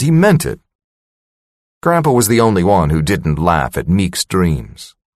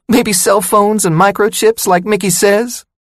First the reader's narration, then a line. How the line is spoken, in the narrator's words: She squeaked her voice like the mouse in the cartoon